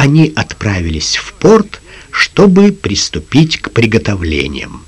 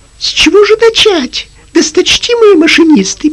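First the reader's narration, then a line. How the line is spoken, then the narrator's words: Squeaky. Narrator (Russian): пискнул Пинг-Понг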